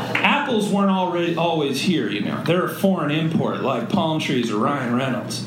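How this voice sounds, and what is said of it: Usual voice. Nothing is said of it.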